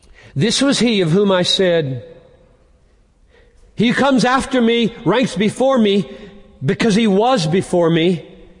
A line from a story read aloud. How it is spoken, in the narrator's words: he cried out